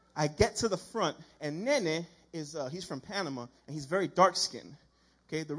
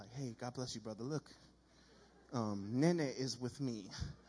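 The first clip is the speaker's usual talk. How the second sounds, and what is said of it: Soft preacher-like whisper. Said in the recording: “my Sunday morning whisper”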